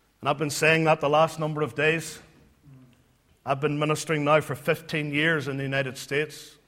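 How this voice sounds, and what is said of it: Non-American accent. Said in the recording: “I know you can tell by my accent”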